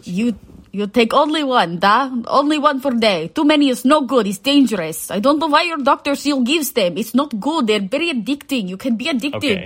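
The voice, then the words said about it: Put-on Russian accent. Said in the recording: “can you do a Russian accent? ... I can try.”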